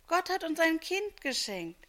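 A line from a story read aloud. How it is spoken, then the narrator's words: Exclaiming. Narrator (German): rief Maria aus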